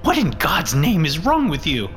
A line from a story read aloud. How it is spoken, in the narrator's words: snapped